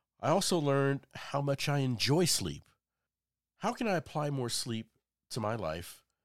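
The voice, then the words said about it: Sick-sounding voice. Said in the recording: “being in this sick state, as you can tell from my voice”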